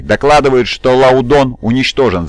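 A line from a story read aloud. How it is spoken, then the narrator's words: Shouted. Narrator (Russian): закричал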